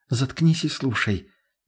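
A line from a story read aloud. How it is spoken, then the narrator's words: Barely audible, mouth-close. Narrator (Russian): едва слышно произнесла она мне прямо в рот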